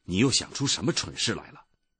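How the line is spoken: Mother speaking sternly. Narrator (Chinese): 埃米尔的妈妈厉声的说

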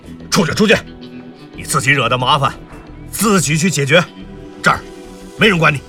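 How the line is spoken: Shouted. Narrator (Chinese): 对刘迪川喊道

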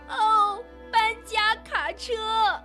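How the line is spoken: Excited exclamation. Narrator (Chinese): 老妈一得知新人家要来了，马上就叫了起来

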